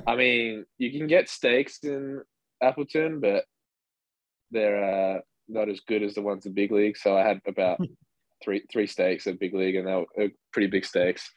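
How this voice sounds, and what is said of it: Western Australian accent. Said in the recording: “people can listen and hear your accent probably and understand that you're from Australia. You're from Western Australia”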